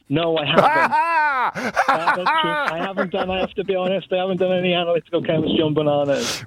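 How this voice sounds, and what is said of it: Welsh accent. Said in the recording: “Apologies from the Welsh accent ... I didn't mean to do the Welsh accent ... It's a lovely accent you got there. One of my all-time favourites across the whole of the United Kingdom.”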